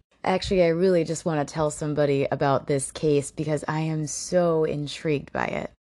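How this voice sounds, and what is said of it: Slightly rough, hoarse voice. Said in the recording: “my voice is probably going to sound a little rough ... I'm a little hoarse”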